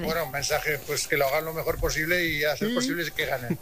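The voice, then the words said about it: Strong Aragonese maño accent. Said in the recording (Spanish): “al principio me ha salido acento mañito ... Pero mucho, bastante”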